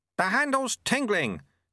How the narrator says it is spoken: shouted Lutse

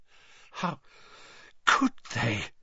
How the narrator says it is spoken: she choked

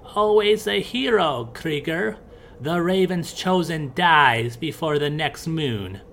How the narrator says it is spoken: Grimhilda cackled as she got up and said

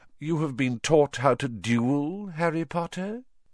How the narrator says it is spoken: said Voldemort softly

